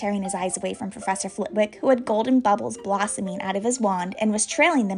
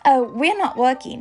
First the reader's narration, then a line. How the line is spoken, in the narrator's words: Harry told him brightly